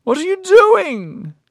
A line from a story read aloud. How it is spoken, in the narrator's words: she wailed